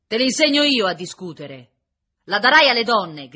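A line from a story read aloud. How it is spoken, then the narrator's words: Officer shouting. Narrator (Italian): gridava l'ufficiale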